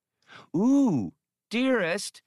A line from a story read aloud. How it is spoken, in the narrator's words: the obese woman exclaimed